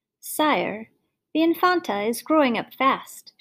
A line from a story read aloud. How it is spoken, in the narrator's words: said